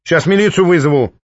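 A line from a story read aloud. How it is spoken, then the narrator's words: Old woman shouting. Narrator (Russian): выкрикнула бабка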